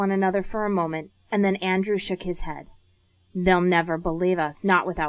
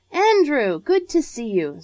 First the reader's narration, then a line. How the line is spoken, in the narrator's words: Sir Charles' voice boomed out cheerfully through the morning air